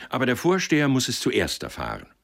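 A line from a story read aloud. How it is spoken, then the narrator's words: Calling out. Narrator (German): rief er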